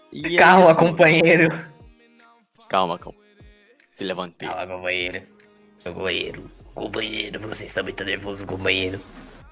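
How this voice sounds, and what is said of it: Imitates another person's voice. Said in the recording (Portuguese): “imitação ... Tem que ter um timbre hum. perfeito pra imitar a voz dele.”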